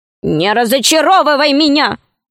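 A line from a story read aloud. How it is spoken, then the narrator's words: Angry. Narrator (Russian): сказал гном сердито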